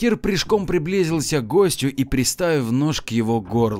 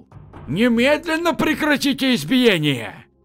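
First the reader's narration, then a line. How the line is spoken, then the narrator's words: Elderly man shouting loudly. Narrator (Russian): Пожилой худощавый гость заведения громко крикнул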